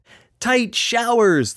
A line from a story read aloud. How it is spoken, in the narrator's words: the clown blurted in wonder